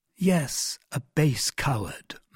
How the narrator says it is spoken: murmured D'Artagnan

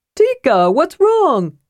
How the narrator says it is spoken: Tass called out

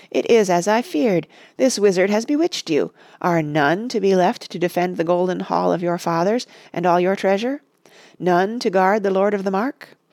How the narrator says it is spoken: cried Wormtongue

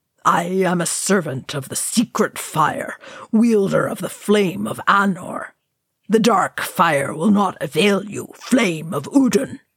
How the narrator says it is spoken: Gandalf bellowed

